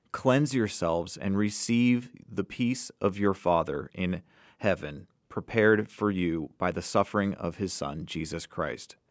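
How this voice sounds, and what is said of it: Choked-up, emotional voice. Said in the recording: “I don't know if you can hear it in my voice, but I'm getting a little choked up”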